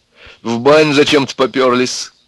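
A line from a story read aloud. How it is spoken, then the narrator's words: Laughing. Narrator (Russian): Люба засмеялась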